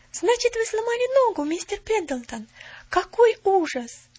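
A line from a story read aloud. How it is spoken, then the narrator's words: Sympathetic girl's exclamation. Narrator (Russian): с сочувствием воскликнула девочка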